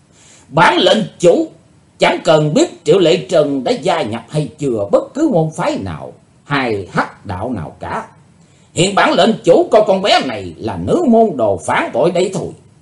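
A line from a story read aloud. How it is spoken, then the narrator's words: Loud burst of laughter. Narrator (Vietnamese): Hải Âu Quái Khách trố lên một tràng cười lớn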